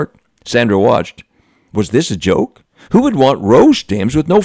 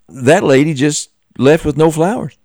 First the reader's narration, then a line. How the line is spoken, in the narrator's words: Sandra stammered